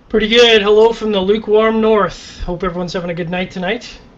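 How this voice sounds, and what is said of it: Canadian accent. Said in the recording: “sound so Canadian”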